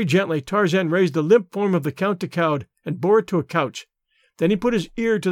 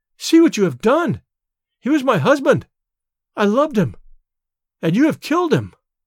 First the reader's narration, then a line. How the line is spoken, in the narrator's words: she cried